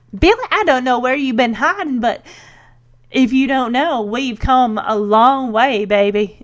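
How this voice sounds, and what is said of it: Poor put-on Southern accent. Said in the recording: “puts on dons a southern accent ... she does a lot better than I do. I don't know what my accent is, but it's horrible, I know.”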